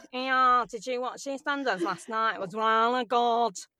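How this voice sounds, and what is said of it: Put-on Leicester accent. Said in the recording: “I don't normally use Leicester, because it's a real ugly accent. You know, got your mouth on a latch.”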